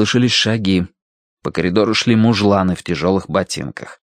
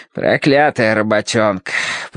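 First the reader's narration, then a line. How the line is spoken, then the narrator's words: Grumbled. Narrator (Russian): проворчал тот, что с мешком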